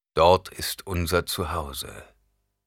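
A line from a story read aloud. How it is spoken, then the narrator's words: Plain. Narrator (German): sagte Stilgar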